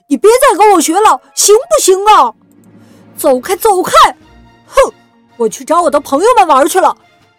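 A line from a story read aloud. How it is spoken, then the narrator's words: Loud yelling. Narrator (Chinese): 哥哥冲着弟弟大声嚷嚷着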